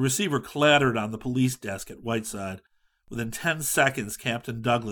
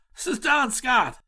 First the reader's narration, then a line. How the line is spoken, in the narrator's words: he said urgently